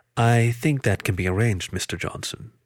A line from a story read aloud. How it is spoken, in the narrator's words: the otter said calmly